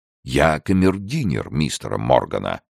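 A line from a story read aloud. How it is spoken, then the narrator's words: Solemn reply. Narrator (Russian): торжественно ответил Паркер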